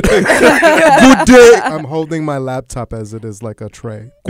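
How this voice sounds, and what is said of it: Deep Lurch-like butler voice. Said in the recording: “You sound like a black lurch.”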